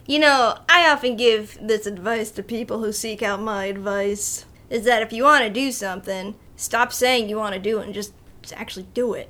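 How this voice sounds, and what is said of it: Strong New York accent. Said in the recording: “you had a very New Yorker accent there ... Your East Coast is showing ... You sound like freaking Frank Sinatra as Joey.”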